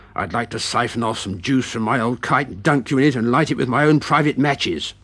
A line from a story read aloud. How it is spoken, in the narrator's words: Beaten hissed